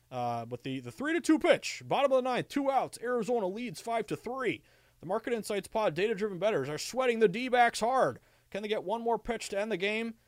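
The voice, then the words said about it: Baseball play-by-play announcer voice. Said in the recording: “This is me doing my impersonation. ... maybe I can be Major League Baseball announcer”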